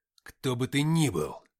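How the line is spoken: Growling. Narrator (Russian): прорычал я

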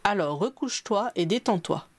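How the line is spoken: Plain. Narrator (French): lui demanda-t-il

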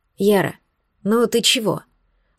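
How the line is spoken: Tender whisper. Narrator (Russian): ласково зашептал Соловей

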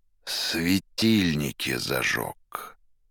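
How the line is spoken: Through gritted teeth. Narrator (Russian): Сквозь зубы в тон арестанту проговорил Пилат

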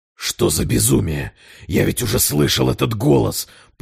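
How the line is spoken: Hoarse merchant. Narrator (Russian): прохрипел торговец

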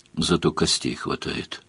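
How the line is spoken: Grumbling. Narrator (Russian): проворчал Сварог

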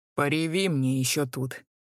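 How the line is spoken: Rough scolding. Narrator (Russian): Грубо одернула жестокая хозяйка

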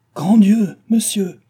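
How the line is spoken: Interrupting exclamation. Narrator (French): s'écria Cécile en l'interrompant

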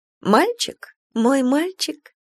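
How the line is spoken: Cooing. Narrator (Russian): проворковала Валя

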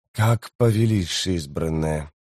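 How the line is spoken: Through gritted teeth. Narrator (Russian): процедил Леоман

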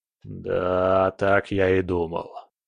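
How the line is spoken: Grumbling. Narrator (Russian): проворчал он

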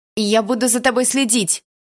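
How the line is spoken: Shouting after someone. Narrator (Russian): выкрикнула я ему в спину

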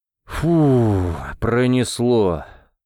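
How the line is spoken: Relieved exhale. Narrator (Russian): выдохнул Микула

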